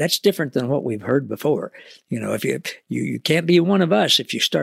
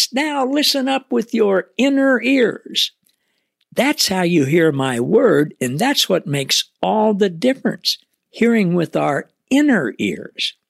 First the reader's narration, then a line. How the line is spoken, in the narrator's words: Jesus cried out with a loud voice